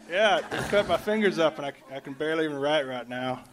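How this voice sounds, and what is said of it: Thick country American accent. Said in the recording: “you sound like you have a little bit of a thick country accent”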